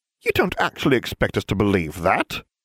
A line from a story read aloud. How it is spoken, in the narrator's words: Ginevra chirped